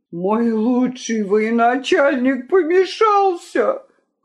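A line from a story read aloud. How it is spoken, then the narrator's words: Groaning. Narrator (Russian): простонал он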